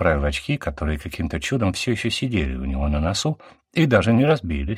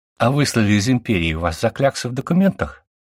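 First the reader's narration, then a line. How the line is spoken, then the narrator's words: Laughing. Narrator (Russian): Натаха засмеялась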